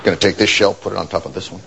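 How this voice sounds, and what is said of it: Slowed-down imitation of another's voice. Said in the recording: “my Barack Obama impression, where I just take my normal voice and just slow it down”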